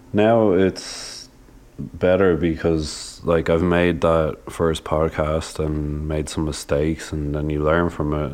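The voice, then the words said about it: Nasal, slightly raspy voice. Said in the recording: “I also apologize for being so nasally. I'm like getting over a cold from about two weeks ago, so I probably sound a bit raspy”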